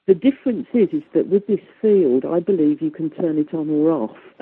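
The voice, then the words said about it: Strong English Midlands accent. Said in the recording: “my wonderful English accent, she said, with a bit of sarcasm, because I've got a very Midlands accent.”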